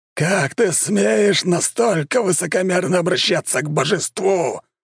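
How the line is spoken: Furious roar. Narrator (Russian): взревел тот

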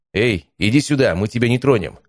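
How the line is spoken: Loud, calm, confident. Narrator (Russian): сказал достаточно громко, но спокойным и уверенным тоном

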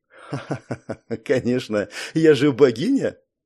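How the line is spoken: Unrestrained laughter. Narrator (Russian): Уже не сдерживаясь, рассмеялась Гея

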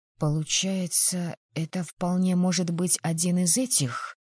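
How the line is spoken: Whispered question. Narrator (Russian): Почему-то шепотом спросила я

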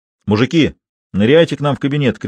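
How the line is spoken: Shouted summons. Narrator (Russian): крикнул Сидоров, созывая сослуживцев

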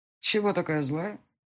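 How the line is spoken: Carefree question. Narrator (Russian): спросил он ее беспечным тоном

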